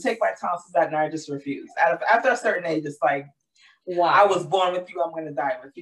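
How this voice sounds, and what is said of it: Hoarse, deeper than usual voice. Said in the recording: “my voice is recovering because I had a little touch of laryngitis ... my voice is even deeper than it normally is”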